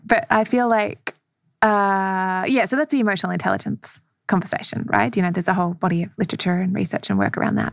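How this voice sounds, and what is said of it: Speaks with a noticeable accent. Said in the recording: “My accent. ... how that lands with my accent”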